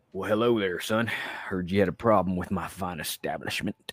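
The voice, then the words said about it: Put-on Texas drawl. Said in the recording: “You make fun of my accent? ... I come from the great state of Texas”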